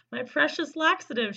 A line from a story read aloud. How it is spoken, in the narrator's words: she cried